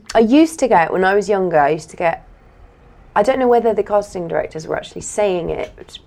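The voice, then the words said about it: Posh English RP accent. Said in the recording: “posh ... She's a bit posh ... I have RP accent”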